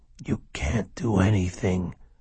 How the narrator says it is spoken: Hopley whispered

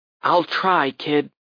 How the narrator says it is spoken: I whispered

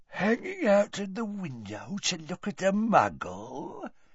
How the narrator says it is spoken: said Gaunt quietly

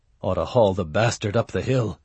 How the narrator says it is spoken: muttered into his mug

